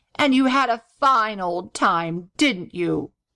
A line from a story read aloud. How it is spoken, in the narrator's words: replied the gobbler coldly